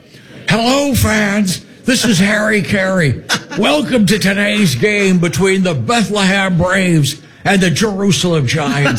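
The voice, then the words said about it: Imitates a baseball announcer's voice. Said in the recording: “doing the voices of Harry Carey”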